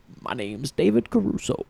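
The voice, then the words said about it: Imitates another person's voice. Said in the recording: “your David Caruso impression now, right? ... My David Caruso impression is slick.”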